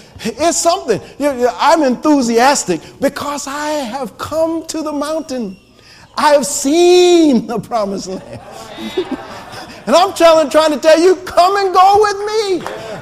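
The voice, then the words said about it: Screaming, shouting preacher delivery. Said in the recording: “I'm screaming and shouting”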